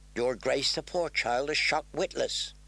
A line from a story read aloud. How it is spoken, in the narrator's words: murmured Ser Dontos